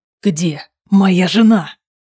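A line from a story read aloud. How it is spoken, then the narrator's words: Hiss. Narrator (Russian): Прошипел Рован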